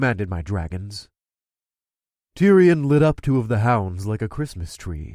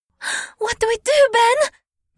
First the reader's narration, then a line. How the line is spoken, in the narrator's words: Anora gasped